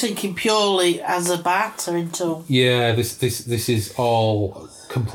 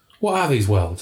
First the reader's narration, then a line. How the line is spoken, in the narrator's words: asked impatiently